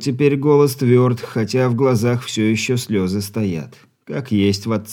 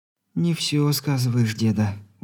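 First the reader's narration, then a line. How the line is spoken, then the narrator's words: Confident whisper. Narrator (Russian): уверенно прошептала она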